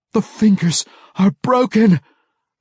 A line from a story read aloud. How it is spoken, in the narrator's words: the dying mage gasped in protest